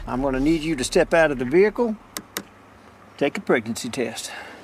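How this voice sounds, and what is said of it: Southern US accent. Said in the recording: “he's a white man with a southern accent”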